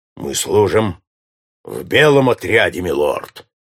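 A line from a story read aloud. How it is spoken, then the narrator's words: Plain. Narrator (Russian): ответил Джон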